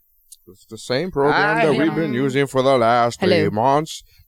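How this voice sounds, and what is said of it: Imitates another person's voice. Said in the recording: “doing my Morgan Freeman voice”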